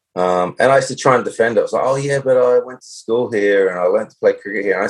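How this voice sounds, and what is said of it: Australian accent. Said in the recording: “I've got an Australian accent.”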